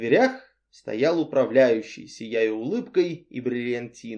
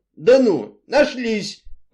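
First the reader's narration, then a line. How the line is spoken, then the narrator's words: Exclamation. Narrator (Russian): воскликнул мистер Ривз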